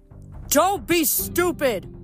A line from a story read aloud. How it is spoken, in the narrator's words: Will yelled